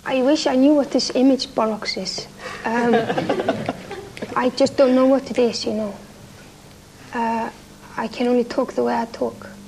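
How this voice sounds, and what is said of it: Strong foreign accent in English. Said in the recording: “you have very strong accent. Even though you have been living in London quite for a long time”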